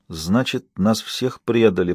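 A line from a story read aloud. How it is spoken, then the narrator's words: Whispered. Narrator (Russian): прошептала она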